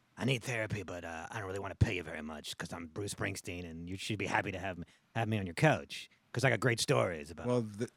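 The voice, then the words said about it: Imitates another person's voice. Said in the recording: “I don't do a good Springsteen impression”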